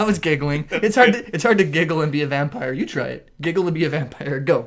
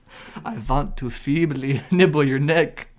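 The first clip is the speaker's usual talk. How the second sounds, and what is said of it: Wavering put-on vampire accent. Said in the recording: “Accent kind of wavered there at the end.”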